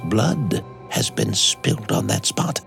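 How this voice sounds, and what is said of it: Low, mysterious voice. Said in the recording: “replied the old housekeeper in a low voice. ... in the same low, mysterious voice”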